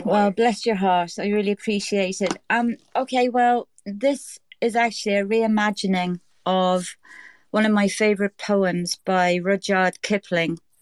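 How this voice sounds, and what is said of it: Irish accent. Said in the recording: “just going on here in my Irish way”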